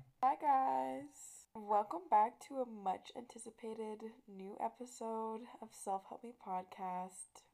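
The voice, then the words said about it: Hoarse voice. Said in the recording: “my voice sounds kind of hoarse.”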